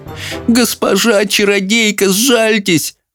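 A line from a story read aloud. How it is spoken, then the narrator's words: Pleading. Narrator (Russian): взмолился он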